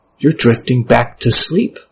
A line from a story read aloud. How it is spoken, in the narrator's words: told me, the whisper persisted